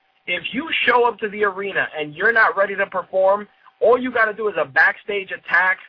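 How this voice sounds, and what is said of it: Usual voice. Nothing is said of it.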